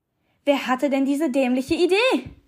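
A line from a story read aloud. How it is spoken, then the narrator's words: Exclaimed. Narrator (German): rief aus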